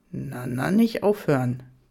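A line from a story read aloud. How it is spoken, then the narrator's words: Low growl in ear. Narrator (German): knurrte seine Stimme leise an meinem Ohr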